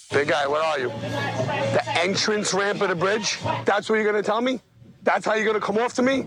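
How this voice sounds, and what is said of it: Strong regional accent. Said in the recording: “The accents are crazy. ... I love the accent.”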